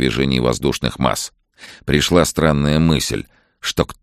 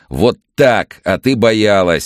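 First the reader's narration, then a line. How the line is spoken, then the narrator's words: Grinning shout. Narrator (Russian): скалясь прокричал Андрей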